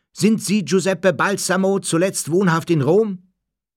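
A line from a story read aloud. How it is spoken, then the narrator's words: Man bellowing. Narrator (German): Einer der Männer brüllte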